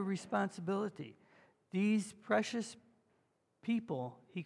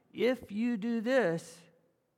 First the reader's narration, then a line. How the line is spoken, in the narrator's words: God says